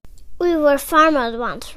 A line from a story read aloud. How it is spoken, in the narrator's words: Robin exclaimed